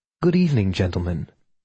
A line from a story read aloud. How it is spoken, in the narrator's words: Leaf said smoothly